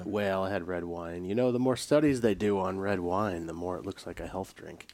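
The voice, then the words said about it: Voice of someone recovering from illness. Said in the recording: “You can tell by my voice, ... I'm getting over being sick.”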